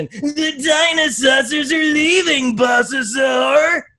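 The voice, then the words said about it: Imitates a cartoon dinosaur character. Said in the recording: “my my Ankylo impression”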